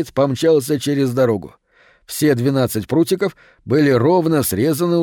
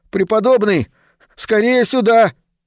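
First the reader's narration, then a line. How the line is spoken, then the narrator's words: Yelling. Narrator (Russian): завопил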